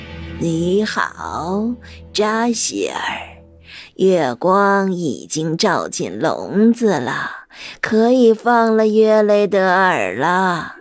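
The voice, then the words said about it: Low, deep witch voice. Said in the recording (Chinese): “女巫又走了回来，用低沉的声音说道”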